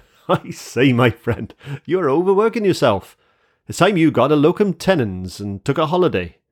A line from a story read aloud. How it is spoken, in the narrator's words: as he burst into a hearty laugh, exclaimed